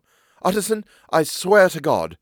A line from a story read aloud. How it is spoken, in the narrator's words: cried the doctor